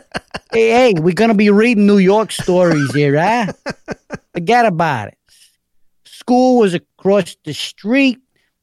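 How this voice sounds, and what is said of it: Exaggerated gruff New York accent. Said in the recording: “Somebody wants you to do an accent really bad ... gruff Brooklyn, New Yorker ... I'm totally messing up the New York accent”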